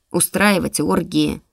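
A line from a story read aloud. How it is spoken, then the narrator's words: Snorting. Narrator (Russian): фыркнул Шатаран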